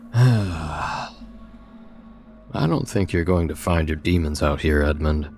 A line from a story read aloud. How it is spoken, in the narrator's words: I told him with a theatrical sigh